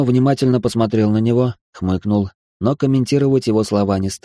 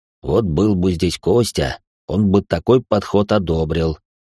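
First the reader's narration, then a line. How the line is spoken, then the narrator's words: Amused snort. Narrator (Russian): хмыкнул Даня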